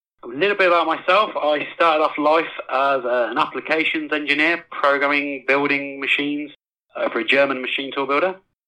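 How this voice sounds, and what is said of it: English accent. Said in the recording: “originally from England, hence the accent”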